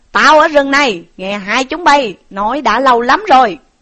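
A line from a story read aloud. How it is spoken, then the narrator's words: Monk's stern shout. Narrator (Vietnamese): một vị hòa thượng ở đâu hiện thân đến mà quát rằng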